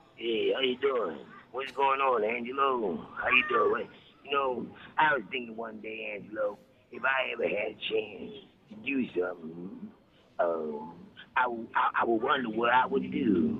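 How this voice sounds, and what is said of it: Put-on character voice. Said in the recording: “that is a very interesting voice”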